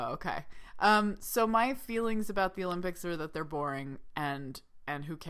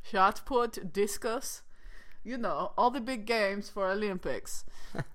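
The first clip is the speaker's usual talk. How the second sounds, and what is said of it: Put-on Austrian-sounding accent. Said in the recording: “I don't know what accent that was, but probably Austrian.”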